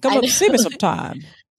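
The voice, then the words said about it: Poor 1930s film-star voice impression. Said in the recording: “That's a terrible accent. ... I think I'm doing a bad, like, bad guy. ... More like Mae West, 1930s.”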